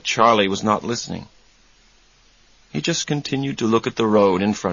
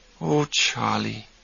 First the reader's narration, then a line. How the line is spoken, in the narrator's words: Susanna said softly